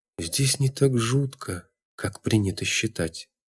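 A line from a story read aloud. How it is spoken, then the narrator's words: Soft sad whisper. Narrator (Russian): тихо прошептала Татьяна, грустно улыбаясь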